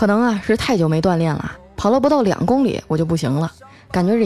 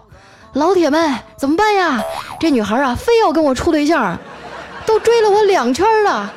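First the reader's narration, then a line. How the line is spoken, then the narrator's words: Breathless shouting while running. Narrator (Chinese): 一边跑啊，一边对着自拍杆上的手机直播喊道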